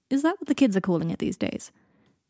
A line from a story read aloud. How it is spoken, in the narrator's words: Harry laughed